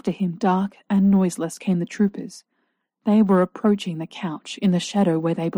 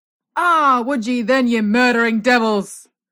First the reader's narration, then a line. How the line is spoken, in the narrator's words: I heard O'Rourke shout with an exultant laugh